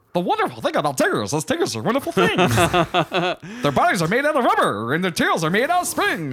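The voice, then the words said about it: Tigger impression, singing. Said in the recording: “do a Tigger impression?”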